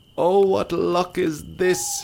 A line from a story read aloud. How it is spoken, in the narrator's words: he cried